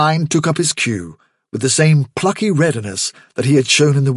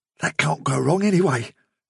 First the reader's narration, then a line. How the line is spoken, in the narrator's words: he whispered